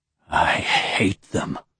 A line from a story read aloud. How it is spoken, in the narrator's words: Dilov whispered in a harsh, almost unintelligible voice